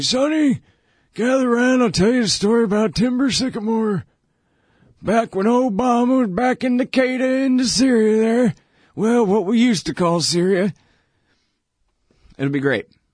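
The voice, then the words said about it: Old man voice. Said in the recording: “my old me impression? That's me when I'm old.”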